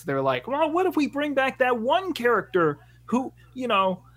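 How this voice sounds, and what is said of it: Kermit the Frog-style funny voice. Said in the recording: “thanks Kermit the Frog ... That's what a voice I've been practicing recently, so it's just my go-to. It's my go-to funny voice.”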